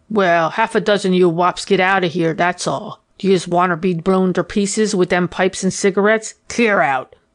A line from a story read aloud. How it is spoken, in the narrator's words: growled Kennedy